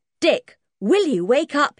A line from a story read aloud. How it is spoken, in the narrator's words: He said loudly